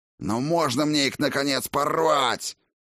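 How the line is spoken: Pleading roar. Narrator (Russian): взревел он умоляюще

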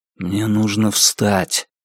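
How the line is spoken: Whisper. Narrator (Russian): прошептал он

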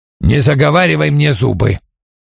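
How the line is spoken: Growl. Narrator (Russian): прорычал Вульф

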